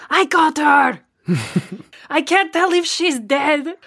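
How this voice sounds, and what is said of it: Shouted whisper. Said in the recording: “shout whisper”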